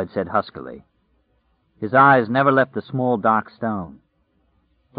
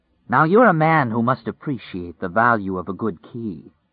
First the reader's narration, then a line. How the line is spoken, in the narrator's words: the man said